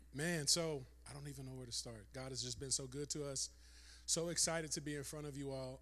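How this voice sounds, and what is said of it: Hoarse voice. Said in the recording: “I'm hoarse because I will just lose it in worship”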